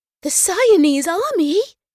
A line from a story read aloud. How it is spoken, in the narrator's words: Neva gasped, her eyes lighting